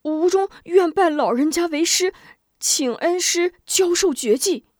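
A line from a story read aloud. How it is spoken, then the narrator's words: Pleading. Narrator (Chinese): 吴中哀求道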